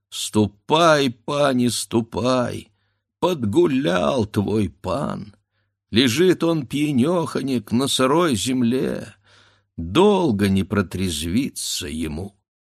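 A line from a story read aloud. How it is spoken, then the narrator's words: Sobbing servant. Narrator (Russian): Зарыдал верный слуга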